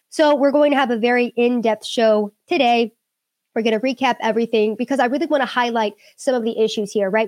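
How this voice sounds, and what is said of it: Weird-sounding, unwell voice. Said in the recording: “I'm still kind of getting over my sickness. Sorry, my voice sounds weird.”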